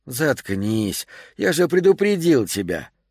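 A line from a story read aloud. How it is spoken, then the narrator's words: Cheerful, friendly tone. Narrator (Russian): сказал он веселым, дружелюбным тоном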